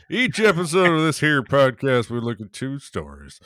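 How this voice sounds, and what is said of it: Put-on Western cowboy accent. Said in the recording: “that's a hard one to keep the accent, actually. ... we're doing Westerns. It's a Western day.”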